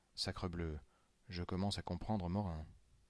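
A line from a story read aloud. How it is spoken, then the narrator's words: Whispered. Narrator (French): Je dis tout bas à Rivet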